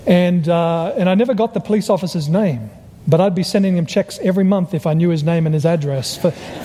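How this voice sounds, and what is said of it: Australian accent. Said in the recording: “I'm originally from Australia because he recognized my accent.”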